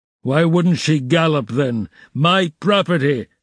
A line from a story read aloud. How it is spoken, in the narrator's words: shouted Mikolka, with bloodshot eyes